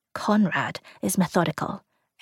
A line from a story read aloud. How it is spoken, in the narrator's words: Aaron whispered